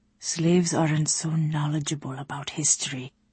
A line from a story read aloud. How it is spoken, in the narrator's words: he murmured